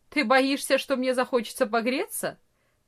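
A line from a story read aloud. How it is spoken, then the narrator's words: Mocking reply. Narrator (Russian): насмешливо ответил Франц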